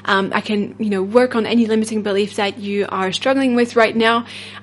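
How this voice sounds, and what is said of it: French accent. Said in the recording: “my French accent.”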